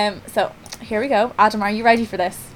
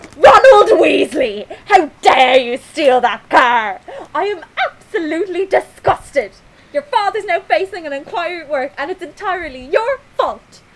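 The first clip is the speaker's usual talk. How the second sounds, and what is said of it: Impression of Molly Weasley's voice. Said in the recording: “my best Molly Weasley impression”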